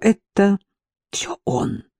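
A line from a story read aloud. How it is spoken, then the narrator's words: Young man muttering. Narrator (Russian): пробормотал молодой турок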